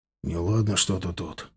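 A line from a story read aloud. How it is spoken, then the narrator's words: Whisper. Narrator (Russian): шепнул мне Женя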